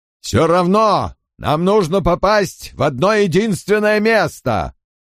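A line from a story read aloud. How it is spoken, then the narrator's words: Muffled shout. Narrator (Russian): крикнул он, Голос звучал глухо, без повелительных ноток и непонятно откуда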